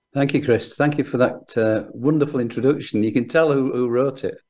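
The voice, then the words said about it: Northern English accent. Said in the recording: “he's a northerner like myself, but he's managed to keep the proper accent.”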